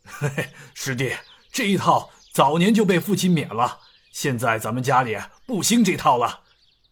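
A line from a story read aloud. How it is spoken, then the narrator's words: Light chuckle. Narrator (Chinese): 刘武轻笑道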